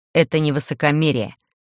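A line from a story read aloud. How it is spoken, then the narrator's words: Irritated, insistent, through teeth. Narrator (Russian): Раздраженно процедив, Кирилл настойчиво повторил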